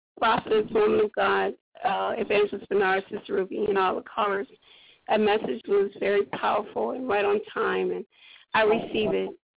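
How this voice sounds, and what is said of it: Hoarse, weak voice from cold. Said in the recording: “I'm just a little under the weather. I'm kind of have a little bit of a cold, so my voice is kind of gone.”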